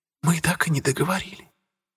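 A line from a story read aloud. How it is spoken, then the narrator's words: Whisper. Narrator (Russian): прошептала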